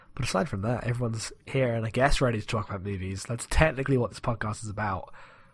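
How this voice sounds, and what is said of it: Quiet, slightly hoarse voice. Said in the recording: “I'm a bit quiet and my voice sounds a little hoarse”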